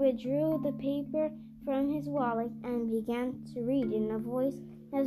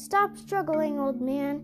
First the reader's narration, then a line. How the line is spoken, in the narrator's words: One of the constables cried